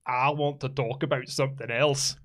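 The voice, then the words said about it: Put-on Scottish accent. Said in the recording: “Where's the accent? ... That's better. ... That was better. It's north of the border.”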